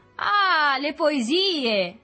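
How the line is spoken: Shouting from all sides. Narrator (Italian): si sentì gridare d'ogni parte

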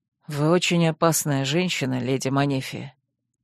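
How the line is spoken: Quiet grumble. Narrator (Russian): тихо буркнул Рент

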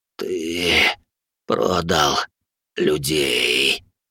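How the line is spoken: Hoarse rasp. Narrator (Russian): прохрипел он

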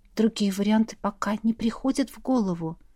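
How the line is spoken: Quiet answer. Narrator (Russian): тихо ответила я

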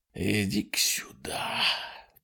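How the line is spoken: Growled. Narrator (Russian): прорычал

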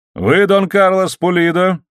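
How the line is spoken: Loud question. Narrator (Russian): спросил он громким голосом

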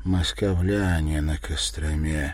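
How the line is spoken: Quiet. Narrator (Russian): тихо добавил

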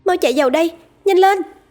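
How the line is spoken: Urgent loud shout. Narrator (Vietnamese): Cô ý thức được mình đang đứng ở trong vùng đất cấm, nên vội hét to

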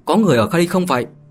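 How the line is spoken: Raised calling voice. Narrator (Vietnamese): Lục Tỷ Ẩm cao giọng mà nói

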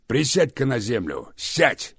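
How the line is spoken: Barked. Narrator (Russian): рявкнул Рамов

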